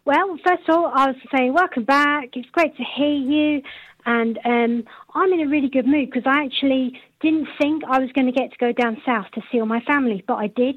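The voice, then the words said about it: Strong northwest English accent. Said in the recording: “I'm in the northwest. Can't you tell from my accent? ... Oh yeah, now you mention it, yeah, it's very strong.”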